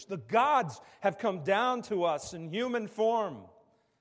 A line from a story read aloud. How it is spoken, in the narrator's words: the crowd shouted in the Lycaonian language